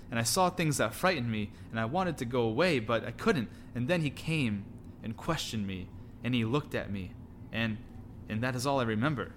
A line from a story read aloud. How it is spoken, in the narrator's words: stammered Pippin